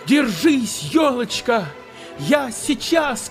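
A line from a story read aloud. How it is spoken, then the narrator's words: Child shouting. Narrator (Russian): крикнул малыш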